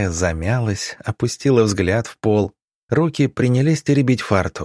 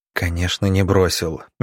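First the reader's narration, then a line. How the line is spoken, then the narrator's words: Gentle speech. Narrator (Russian): мягко сказал Иван Павлович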